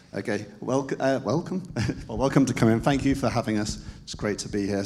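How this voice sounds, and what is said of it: English accent. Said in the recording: “we are actually from England. Now, I've been working on my accent for my whole life because I was born in the UK.”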